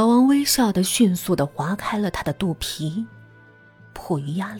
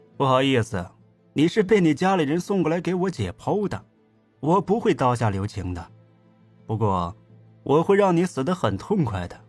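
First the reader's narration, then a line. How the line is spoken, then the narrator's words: Smiling. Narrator (Chinese): 老王微笑道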